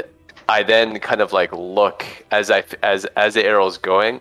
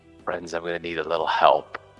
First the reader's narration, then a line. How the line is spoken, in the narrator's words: I whisper